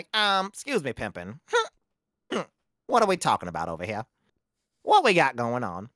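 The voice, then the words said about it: Imitates another person's voice. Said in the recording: “I don't do good impersonations ... if somebody's like, do Cat Williams”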